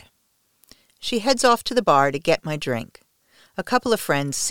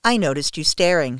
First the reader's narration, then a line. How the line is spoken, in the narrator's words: she says